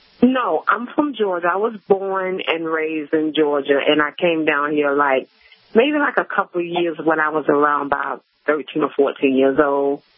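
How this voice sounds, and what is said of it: Georgia-Florida Southern American accent. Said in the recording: “I notice an accent ... You have a Georgia-Florida accent”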